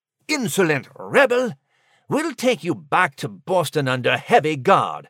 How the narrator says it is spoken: he sneered

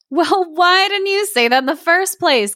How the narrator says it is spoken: cried the oyster catcher

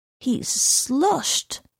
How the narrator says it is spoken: murmured the man

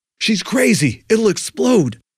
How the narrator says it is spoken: someone frantically yell over the roar of escaping gas

